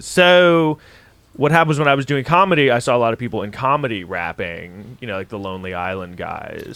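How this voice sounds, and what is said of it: Lazy, stoned-sounding drawl. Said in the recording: “this accent ... very stony ... how much lazier can my voice get”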